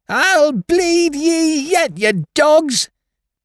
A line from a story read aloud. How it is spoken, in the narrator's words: screamed shrilly